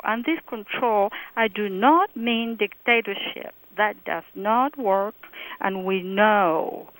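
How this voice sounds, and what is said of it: Non-native accented English. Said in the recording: “I am American, I have an accent, but I am American.”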